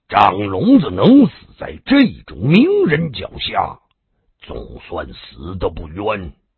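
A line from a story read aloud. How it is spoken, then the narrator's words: Cold. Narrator (Chinese): 常无意冷冷的说道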